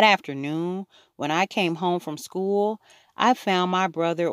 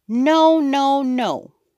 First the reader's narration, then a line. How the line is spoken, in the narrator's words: Fudge shouted